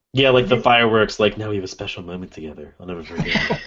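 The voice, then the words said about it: Creepy put-on voice. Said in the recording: “That's my really creepy voice.”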